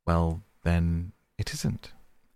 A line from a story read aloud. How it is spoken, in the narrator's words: replied the mole soothingly